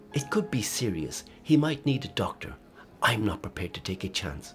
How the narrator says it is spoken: she snapped

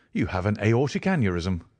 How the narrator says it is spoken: I cried

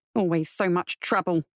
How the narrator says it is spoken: he grumbled to himself

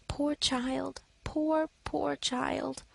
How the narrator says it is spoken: she whispered compassionately

